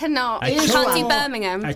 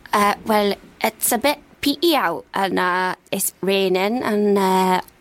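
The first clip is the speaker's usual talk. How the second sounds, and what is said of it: Put-on Newcastle accent. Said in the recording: “can do any accent in the world ... A tour around the British Isles with ... and now we find ourselves in Newcastle”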